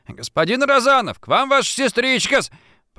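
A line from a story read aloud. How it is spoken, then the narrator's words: Shout. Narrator (Russian): крикнул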